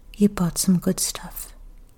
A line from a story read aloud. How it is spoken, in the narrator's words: Kikuko said in a gentle voice that didn't betray any emotion